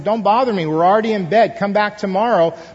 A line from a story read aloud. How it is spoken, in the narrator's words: his friend inside called out and said